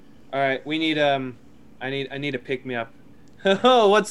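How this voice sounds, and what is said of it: Usual voice. Nothing is said of it.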